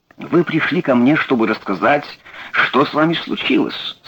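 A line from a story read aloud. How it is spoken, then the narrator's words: Plain. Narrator (Russian): сказал он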